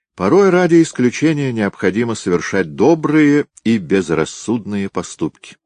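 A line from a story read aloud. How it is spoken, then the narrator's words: Plain. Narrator (Russian): сказал Кирилл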